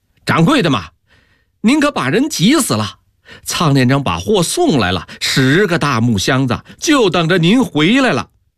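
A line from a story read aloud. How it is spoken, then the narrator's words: Loud shout over phone. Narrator (Chinese): 电话里大声的喊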